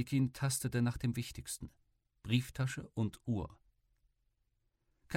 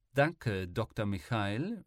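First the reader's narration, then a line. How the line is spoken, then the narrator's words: Mocking. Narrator (German): spöttelte Kama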